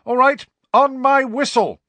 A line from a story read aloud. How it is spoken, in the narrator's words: shouted Angelina